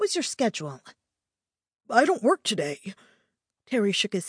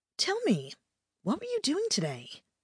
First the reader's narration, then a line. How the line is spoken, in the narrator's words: I asked him cheerfully